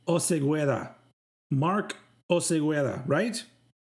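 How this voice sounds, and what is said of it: Attempted Spanish pronunciation. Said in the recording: “That's me trying to do the right accent and everything.”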